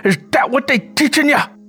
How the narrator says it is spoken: Curly wailed angrily

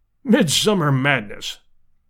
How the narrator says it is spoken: snorted Summerlee

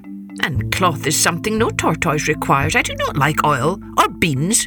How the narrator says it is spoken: snapped

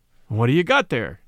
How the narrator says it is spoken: said Kelly

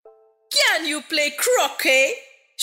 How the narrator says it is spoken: shouted the queen

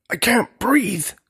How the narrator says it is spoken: gasped Julius

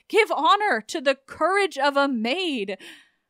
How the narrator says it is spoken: he cried

